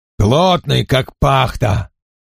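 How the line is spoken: Rough voice from overhead. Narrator (Russian): сказал кто-то грубым голосом прямо над головой Аарона

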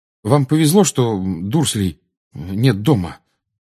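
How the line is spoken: Muttering. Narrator (Russian): пробормотал он

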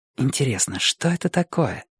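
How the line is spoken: Whisper. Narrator (Russian): прошептала Джилл

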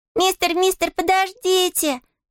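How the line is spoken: Squealing voices. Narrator (Russian): визжали они

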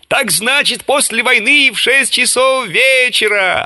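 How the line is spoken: Yelling. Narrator (Russian): орал Водичка

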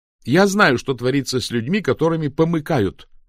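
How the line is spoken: Shouting even louder. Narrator (Russian): закричала она еще громче

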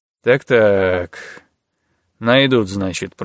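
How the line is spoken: Drawling. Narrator (Russian): протянул Золотых

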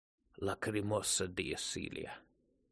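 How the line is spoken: Whisper, then wheezing. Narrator (Russian): прошептала она и захрипела

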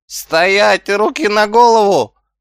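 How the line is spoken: Yelled after someone. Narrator (Russian): заорал след коту Шнупс

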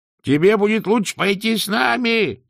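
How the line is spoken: Shout. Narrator (Russian): закричал Сдумс

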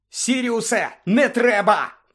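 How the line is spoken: Shouting. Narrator (Ukrainian): крикнув Люпин

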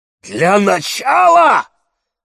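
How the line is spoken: Roar. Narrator (Russian): взревел Димитрий

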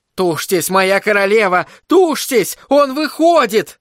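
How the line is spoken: Shouted. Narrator (Russian): Анна крикнула

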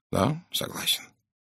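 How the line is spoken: Soft. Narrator (Russian): мягко произнес Пуаро

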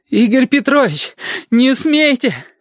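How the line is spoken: Gurgling exhaled words. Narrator (Russian): с каким-то бульканьем выдохнул Сашка

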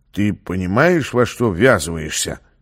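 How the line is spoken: Quiet question. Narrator (Russian): негромко спросил Гомер

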